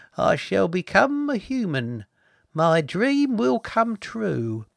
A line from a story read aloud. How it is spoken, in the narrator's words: He sighed again, unplugged himself and said